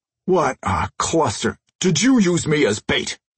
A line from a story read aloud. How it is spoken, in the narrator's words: Crusher roared